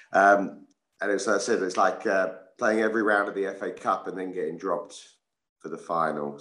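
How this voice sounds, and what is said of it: Slightly rough, strained voice. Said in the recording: “maybe that's why my voice is a little bit dodgy this morning”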